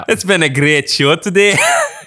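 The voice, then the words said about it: Put-on Scottish accent. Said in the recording (Dutch): “I can do a little bit of Scottish accent.”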